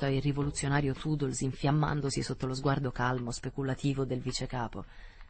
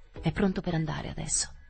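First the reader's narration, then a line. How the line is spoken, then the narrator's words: Whispered exclamation. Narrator (Italian): esclamò in un sussurro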